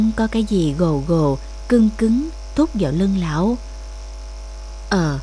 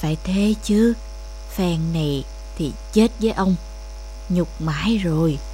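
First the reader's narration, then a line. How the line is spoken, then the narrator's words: Old man muttering. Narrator (Vietnamese): Lão lẩm bẩm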